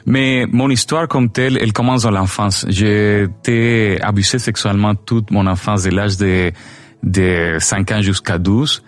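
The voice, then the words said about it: Venezuelan Spanish accent. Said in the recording (French): “je suis vénézuélien, mais ça fait 13 ans que j'habite ici au Québec, à cause de ça mon accent”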